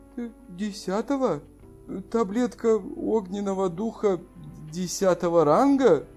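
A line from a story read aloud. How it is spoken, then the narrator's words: Shocked, barely audible. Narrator (Russian): Вдруг цвет его лица изменился, и в таком состоянии он едва слышно сказал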